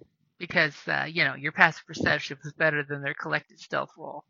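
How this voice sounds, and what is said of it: Usual voice. Nothing is said of it.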